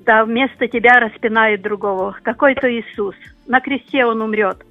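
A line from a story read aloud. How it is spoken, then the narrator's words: Laughing soldier. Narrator (Russian): Солдат рассмеялся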